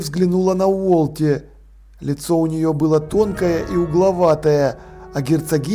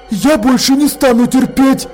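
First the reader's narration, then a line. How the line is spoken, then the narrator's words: Shouted. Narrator (Russian): крикнула Холтер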